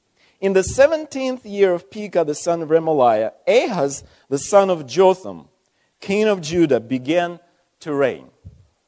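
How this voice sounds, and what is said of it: Speaks with a noticeable accent. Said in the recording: “if you don't mind my accent.”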